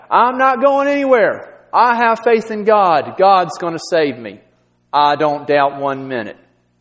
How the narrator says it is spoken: The man shouted back

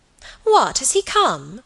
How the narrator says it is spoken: cried Alicia

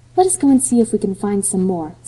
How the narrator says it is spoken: suggested Anne eagerly

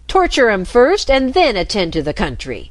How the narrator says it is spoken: snapped the Rat

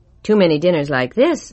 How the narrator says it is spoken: I said

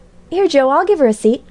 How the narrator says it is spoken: cried David

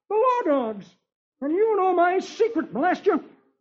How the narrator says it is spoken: exclaims

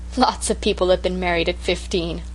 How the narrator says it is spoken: laughed the Story Girl

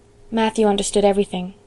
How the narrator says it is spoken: said Anne softly, as she always spoke of him

